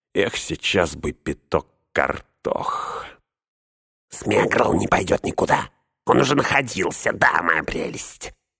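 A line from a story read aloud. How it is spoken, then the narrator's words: Throaty hiss. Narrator (Russian): прошипел горлом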